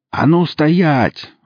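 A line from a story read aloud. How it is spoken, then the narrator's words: Yelled from a distance. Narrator (Russian): заорал кто-то со стены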